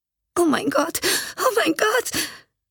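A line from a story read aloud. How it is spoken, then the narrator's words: Suppressing sobs. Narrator (German): Sie unterdrückte ihre Schluchzer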